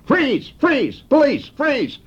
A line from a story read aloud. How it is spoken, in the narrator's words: he hollered